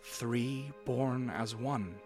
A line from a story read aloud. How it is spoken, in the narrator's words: she said